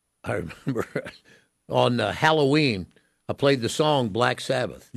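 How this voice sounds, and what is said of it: Usual voice. Nothing is said of it.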